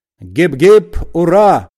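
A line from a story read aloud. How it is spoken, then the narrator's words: Shout. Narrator (Russian): закричал Остап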